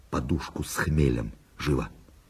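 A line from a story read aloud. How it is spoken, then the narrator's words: Whispered order. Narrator (Russian): Барон шепотом приказал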